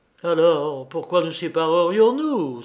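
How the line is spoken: Delirious exclamation. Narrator (French): s'écria Wolfgang au comble du délire

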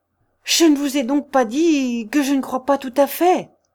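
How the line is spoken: Finally exclaiming. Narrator (French): s'écria enfin

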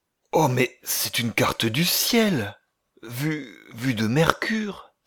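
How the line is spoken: Choked exclamation. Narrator (French): s'écria Olaf Densmold d'une voix étranglée

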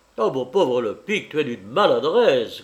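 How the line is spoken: Grumbled. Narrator (French): grommela Goël

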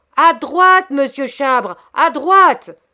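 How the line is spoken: Shouted. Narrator (French): cria Hector

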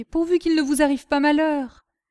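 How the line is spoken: Moaning. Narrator (French): gémit Martigues

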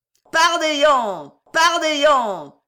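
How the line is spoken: Crowd howling demonically. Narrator (French): hurlaient les truands, pareils à des démons que l'enfer eût vomis

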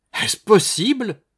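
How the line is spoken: Exclaimed. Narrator (French): s'écria Madame Barinck

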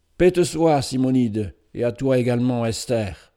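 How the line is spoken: Exclaimed. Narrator (French): s'écria Ben-Hur

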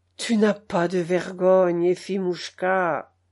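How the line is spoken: Sighing. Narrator (French): soupirait Grigori Chicheline

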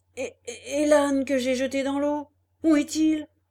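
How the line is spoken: Stunned stammering. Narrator (French): Revenu un peu de sa stupeur, il dit en balbutiant

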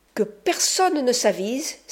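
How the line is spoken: Exclaiming. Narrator (French): s'écria-t-il

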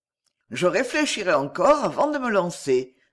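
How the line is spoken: Said cheerfully. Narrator (French): dit-il gaiement

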